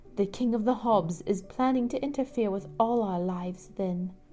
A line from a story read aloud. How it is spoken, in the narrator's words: the spider mother murmured